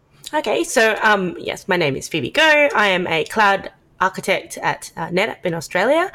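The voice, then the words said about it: Australian accent. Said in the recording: “people can probably guess from your accent, live from Australia”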